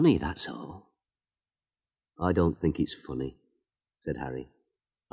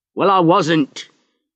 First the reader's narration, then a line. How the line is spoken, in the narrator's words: Harry shouted